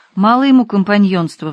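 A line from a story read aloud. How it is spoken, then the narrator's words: Sighing. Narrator (Russian): вздохнул Пузырь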